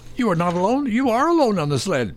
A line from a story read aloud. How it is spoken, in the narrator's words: cried the crow